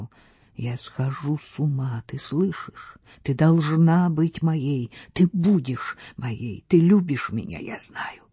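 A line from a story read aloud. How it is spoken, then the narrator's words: Passionate whisper. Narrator (Russian): майорат шептал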